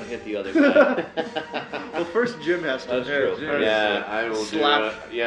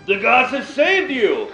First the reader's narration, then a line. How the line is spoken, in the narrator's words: I shout